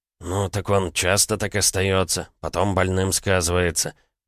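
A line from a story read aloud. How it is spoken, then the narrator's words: Muttered. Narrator (Russian): пробормотал Степан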